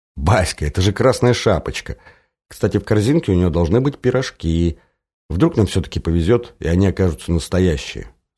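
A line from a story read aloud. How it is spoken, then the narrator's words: Whispering. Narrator (Russian): зашептала Оля, нагнувшись к собачке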